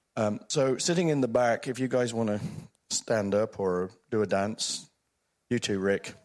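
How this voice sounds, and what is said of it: Croaky, sick-sounding voice. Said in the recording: “I'm also very sick, so you might hear my voice is a bit croaky ... to save my voice”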